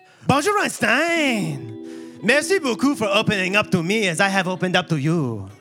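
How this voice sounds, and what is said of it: Put-on French accent. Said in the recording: “It's a French cat, so I'm going to do a French accent.”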